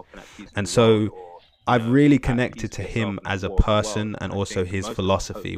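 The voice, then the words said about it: London British accent. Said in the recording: “my like London British accent”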